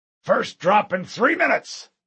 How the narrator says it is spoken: Mendez barked

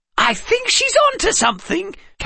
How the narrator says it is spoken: Calvin exclaimed

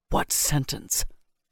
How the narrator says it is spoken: he asked hoarsely

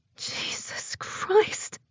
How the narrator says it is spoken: I hiss

